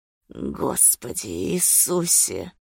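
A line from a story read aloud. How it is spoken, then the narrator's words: Rough low voice. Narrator (Russian): произнес он грубым, низким голосом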